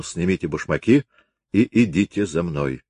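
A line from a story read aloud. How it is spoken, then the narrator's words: Quiet. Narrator (Russian): Он тихо сказал Глоссену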